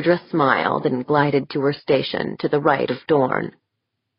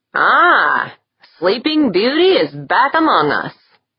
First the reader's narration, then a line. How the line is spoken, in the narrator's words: Jaeger beamed at her and said loudly